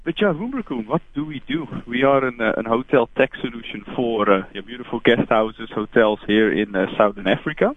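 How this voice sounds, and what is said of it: Dutch accent. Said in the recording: “my accent ... I'm from the Netherlands ... Can't get rid of the accent.”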